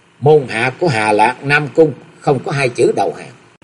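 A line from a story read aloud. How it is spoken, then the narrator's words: Laughing loudly, then speaking. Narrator (Vietnamese): chàng mới cười lớn rồi nói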